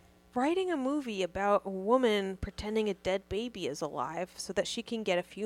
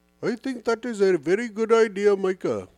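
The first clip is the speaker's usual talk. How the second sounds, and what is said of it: Imitates another person's voice, British accent. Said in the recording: “That's Deepak Chopra. ... he has a British accent.”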